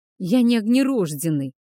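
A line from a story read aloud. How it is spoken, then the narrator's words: Moaning. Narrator (Russian): простонал подмастерье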